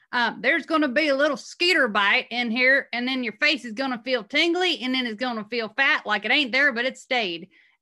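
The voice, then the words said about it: Imitated thick regional accent. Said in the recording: “he had this really thick accent, so I'm going to try to imitate it.”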